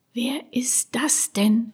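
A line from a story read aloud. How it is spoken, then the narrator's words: Whispered. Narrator (German): wisperte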